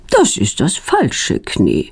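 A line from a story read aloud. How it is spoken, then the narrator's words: Calm. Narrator (German): sagt sie ruhig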